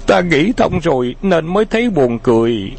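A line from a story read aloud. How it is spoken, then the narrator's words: Laughing hard, panting. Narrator (Vietnamese): Khấu Trọng cười đến gặp cả người, thở hổn hển nói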